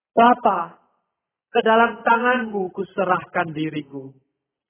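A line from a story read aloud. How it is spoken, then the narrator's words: Loud shout. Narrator (Indonesian): Yesus berteriak dengan suara keras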